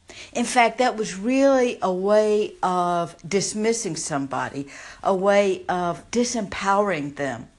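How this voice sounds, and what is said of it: Southern American accent. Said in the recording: “if you can't tell by my accent, I grew up in the South”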